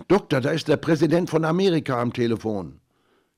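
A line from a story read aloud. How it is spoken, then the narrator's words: Called out. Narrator (German): Schwester Salvadora rief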